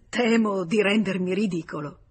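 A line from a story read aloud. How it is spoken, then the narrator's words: Laughing. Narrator (Italian): rise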